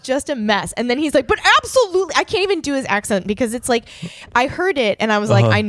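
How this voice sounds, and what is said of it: Usual voice. Nothing is said of it.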